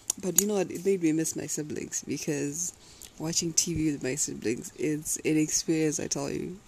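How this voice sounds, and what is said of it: Tired-sounding voice. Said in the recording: “If I sound tired-ish, I'm sorry. I slept a bit late”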